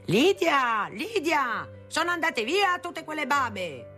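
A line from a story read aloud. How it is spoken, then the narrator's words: Loud distant yelling. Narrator (Italian): dal suo studio mio padre urlava a gran voce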